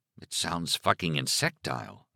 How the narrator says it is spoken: Alan muttered

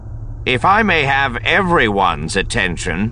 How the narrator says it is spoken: Drayson said, just a little too loudly

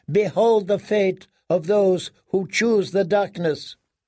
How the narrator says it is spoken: cried Melisandre

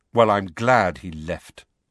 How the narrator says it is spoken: Harry said coldly

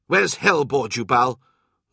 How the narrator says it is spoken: Loken snapped

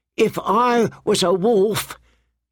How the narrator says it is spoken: he howled

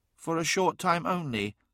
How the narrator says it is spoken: said softly

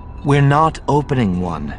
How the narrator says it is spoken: Leia said firmly

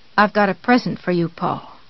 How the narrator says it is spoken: she said softly

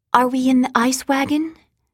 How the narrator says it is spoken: Sean asked in a small voice

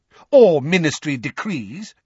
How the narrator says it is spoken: amended Fudge angrily

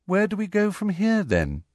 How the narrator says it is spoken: she asked Harry in a politely interested voice, as though this was all a rather interesting day trip

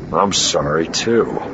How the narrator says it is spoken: Han muttered

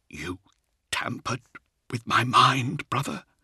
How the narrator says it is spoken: said, his voice barely above a whisper

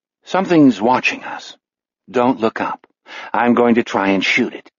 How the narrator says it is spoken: Jack says in a conversational voice

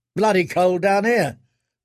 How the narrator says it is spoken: the other said

